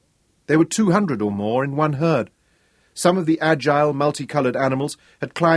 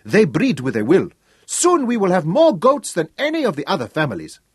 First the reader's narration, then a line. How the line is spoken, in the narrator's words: cried the herd boys